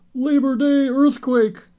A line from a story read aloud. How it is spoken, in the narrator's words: shouting out our windows